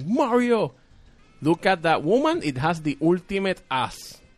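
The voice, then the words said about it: Puerto Rican Spanish-accented English. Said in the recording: “people think it's a fake accent, but it's actually my butchered Spanish from Puerto Rico”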